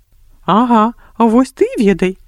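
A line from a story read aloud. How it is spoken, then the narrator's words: Laughing loudly. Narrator (Belarusian): моцна засмяяўся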